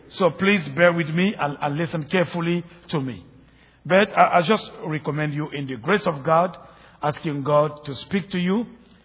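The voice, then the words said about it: French-speaker's accented English. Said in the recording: “I forget that I am speaking my third language, not French... somebody, you know, who has a funny accent, making a lot of mistakes, or speaking half French, half English”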